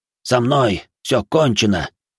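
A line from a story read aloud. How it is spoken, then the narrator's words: Wheezing, wounded. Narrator (Russian): прохрипел прокушенный лист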